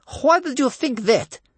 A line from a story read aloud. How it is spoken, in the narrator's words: snapped Bear Cub's grandmother